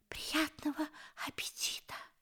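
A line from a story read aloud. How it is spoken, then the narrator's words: Whisper. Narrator (Russian): прошептал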